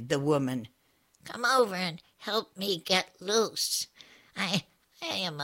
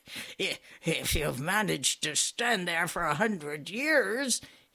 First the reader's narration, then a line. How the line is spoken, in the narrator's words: he answered with a nasty chuckle